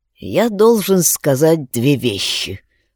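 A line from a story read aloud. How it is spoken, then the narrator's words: Hoarse declaration. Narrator (Russian): хрипло заявил Алекс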